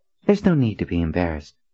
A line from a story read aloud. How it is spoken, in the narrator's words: Nadine said in a casual tone